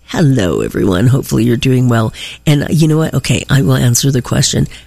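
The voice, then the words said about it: Stuffy congested voice from cold. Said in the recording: “I have a cold... the lingering bonus that I got with it... my little bit of a stuffiness going on”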